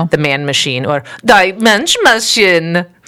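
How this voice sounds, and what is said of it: Put-on German accent. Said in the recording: “That was my German accent. ... Oh, good one. ... I don't know if that was good. ... No, it was good.”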